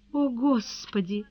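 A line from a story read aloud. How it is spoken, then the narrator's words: Sudden moan. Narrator (Russian): внезапно простонала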